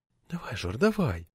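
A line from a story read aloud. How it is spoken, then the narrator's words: Whispered. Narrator (Russian): шептала мне Лето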